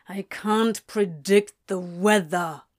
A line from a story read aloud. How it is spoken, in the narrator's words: Crowley grumbled